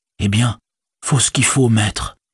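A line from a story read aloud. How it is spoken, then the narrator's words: Muttered to himself. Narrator (French): murmura Sam pour lui-même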